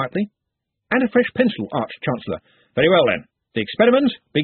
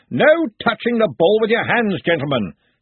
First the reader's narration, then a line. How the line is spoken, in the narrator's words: shouted the Arch-Chancellor